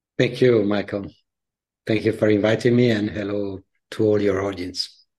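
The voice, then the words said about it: Italian accent. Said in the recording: “as you can hear from my accent ... I'm based in the Italian-speaking part of Switzerland, but I'm originally Italian”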